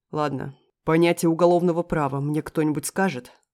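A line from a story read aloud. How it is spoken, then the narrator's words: Teacher nearly growling. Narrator (Russian): Преподаватель почти рычал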